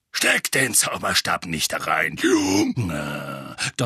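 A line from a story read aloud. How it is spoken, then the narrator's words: Thundering. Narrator (German): donnerte Moody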